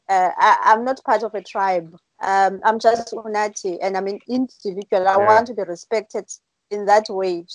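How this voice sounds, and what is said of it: Xhosa accent, high-pitched voice. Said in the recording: “you have a Kosa accent ... he forced his voice to become high”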